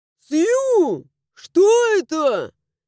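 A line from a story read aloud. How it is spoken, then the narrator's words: Yelled. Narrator (Russian): заорал Луиш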